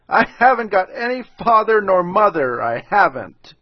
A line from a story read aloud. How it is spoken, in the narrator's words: Manabujo started off again with his doleful hubbub, but succeeded in jerking out between his big sobs